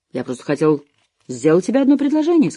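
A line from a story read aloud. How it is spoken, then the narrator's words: Innocent voice. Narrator (Russian): сказал Харт самым невинным голосом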